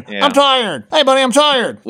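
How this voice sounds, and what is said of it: Imitates another person's voice. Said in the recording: “is that your impression ... with my impression of you on”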